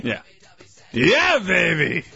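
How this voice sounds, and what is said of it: Austin Powers impression. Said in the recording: “That's no good. You can't do that. That's Austin Powers.”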